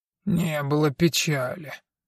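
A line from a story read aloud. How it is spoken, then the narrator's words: Quiet grumble. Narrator (Russian): тихо проворчал Дон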